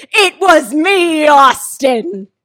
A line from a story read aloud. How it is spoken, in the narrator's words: I was just like screamed